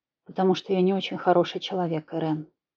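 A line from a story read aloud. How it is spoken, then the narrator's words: Quiet. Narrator (Russian): произнес тихо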